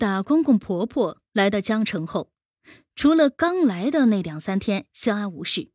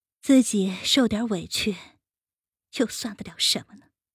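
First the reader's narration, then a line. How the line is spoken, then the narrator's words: Muttering to himself. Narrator (Chinese): 喃喃自语道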